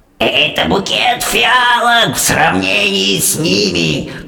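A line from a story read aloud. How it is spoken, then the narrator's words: Witch growling. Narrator (Russian): продолжала рычать великая ведьма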